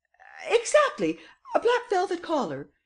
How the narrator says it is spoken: exclaimed Madame Renaud triumphantly

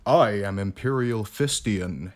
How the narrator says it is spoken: he said

